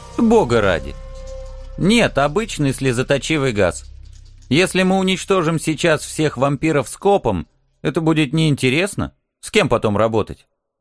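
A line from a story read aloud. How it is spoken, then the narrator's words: Snort. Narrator (Russian): Хмыкнул Алекс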